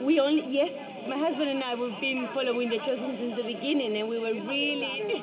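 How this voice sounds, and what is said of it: Spanish accent in English. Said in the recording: “I love your accent. Where are you from? ... From Spain.”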